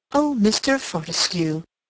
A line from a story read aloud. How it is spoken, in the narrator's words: exclaimed Mrs